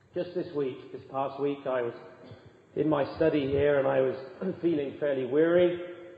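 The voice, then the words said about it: Weak, recovering voice. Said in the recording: “My voice was going, it's still coming back.”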